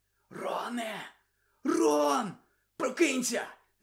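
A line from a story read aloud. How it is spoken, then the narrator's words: Whispered. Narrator (Ukrainian): зашепотів Гаррі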